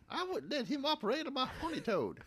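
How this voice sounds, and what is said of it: Put-on Southern accent. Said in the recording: “we can do these accents ... I don't know if we're doing North Carolina properly, but, you know, it's a southern accent of some type ... she don't have to fake it none”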